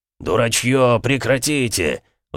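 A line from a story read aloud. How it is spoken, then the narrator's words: Roaring. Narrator (Russian): взревел в сеть Бронзовый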